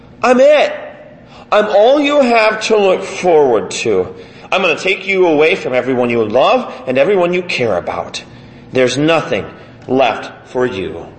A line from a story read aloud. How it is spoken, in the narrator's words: Death mocks, saying